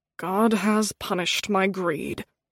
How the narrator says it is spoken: he muttered

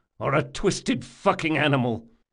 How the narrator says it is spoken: spat Locke

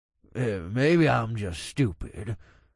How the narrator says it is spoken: Paul said with a grunt

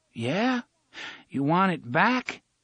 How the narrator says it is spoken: O'Meara had to speak slowly

